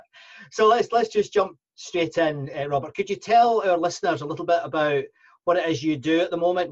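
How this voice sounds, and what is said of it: Scottish accent. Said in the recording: “you'll understand my accent, hopefully. ... Yes, Scottish.”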